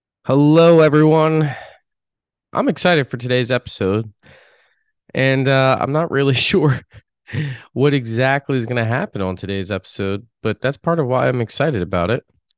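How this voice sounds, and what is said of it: Congested, under-the-weather voice. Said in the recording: “As you can hear in my voice, I'm not exactly in tip top shape ... It's allergies”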